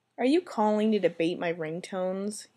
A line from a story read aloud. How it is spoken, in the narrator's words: he sighed, unsure as to why he even cared that Cook was teasing him